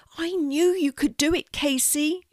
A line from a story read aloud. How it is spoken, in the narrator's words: she shouts